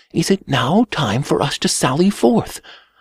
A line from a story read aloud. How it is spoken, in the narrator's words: a voice within whisper with all caution